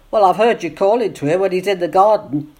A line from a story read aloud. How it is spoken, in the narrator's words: said Jonathan crossly